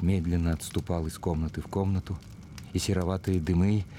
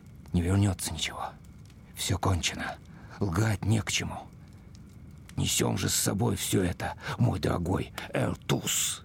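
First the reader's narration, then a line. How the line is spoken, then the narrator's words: Muttered. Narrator (Russian): Опять он пробормотал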